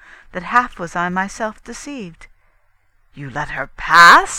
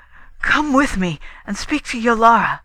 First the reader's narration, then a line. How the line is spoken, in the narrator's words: he pleaded